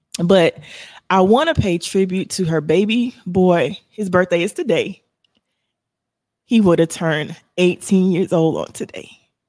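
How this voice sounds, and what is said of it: Emotional voice, close to tears. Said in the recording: “I'm trying not to get emotional because I'm a crybaby ... I'm getting emotional. I'm trying not to cry.”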